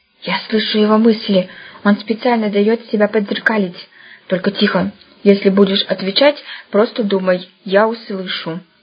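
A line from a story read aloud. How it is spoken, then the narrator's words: Grandson whispering. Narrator (Russian): зашептал внук Еге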